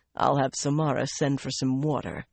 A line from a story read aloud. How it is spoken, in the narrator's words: he said dryly